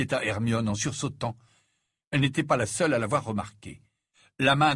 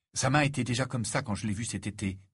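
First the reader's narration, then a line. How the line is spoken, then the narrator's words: Whisper. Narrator (French): murmura Harry à Hermione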